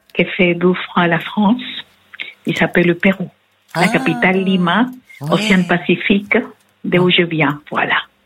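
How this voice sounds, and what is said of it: Latin American accent speaking French. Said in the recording (French): “Vous avez un joli accent qui vient de... c'est de l'Amérique latine en fait”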